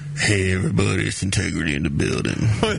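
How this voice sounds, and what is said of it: Imitates another person's voice. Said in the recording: “I'm going to do my best impression now ... That was pretty good.”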